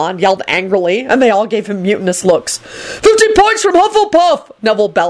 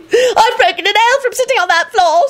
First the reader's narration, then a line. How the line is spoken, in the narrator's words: screamed the redhead girl